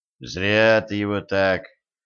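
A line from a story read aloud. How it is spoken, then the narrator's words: Sigh. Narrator (Russian): вздохнул Денис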